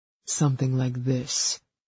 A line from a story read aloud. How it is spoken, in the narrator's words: murmured